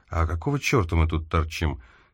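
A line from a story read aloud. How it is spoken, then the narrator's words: Quiet question. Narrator (Russian): Шефер тихо спросил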